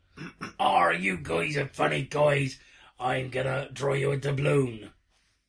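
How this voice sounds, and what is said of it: Pirate voice with New York accent. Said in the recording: “Do a pirate impersonation ... I think my pirate's pretty solid ... It's a New York pirate.”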